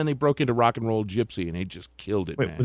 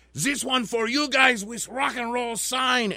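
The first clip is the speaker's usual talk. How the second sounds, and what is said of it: Exaggerated foreign heavy metal singer accent. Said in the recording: “Was that supposed to be a Japanese accent? ... it was supposed to be like a heavy metal guy accent ... It sounded like Hitler.”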